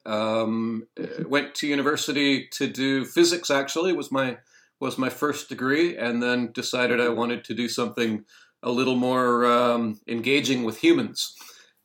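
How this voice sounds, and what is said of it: Canadian English accent. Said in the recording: “you'll tell from my accent that I'm Canadian”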